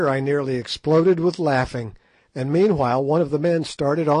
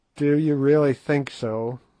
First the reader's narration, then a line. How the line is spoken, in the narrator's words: said Good gloomily